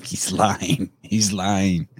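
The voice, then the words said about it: Imitates another person's voice. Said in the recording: “That was my best impersonation of our president, Joe Biden.”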